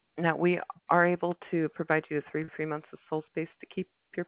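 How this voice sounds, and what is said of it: Hoarse, strained voice. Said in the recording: “I'm losing my voice. ... I've got that after Black Friday voice.”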